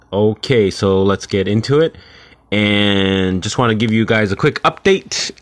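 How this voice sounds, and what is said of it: Sickly, under-the-weather voice. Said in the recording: “I'm still a little under the weather ... apologize for my voice. It sounds a little sickly.”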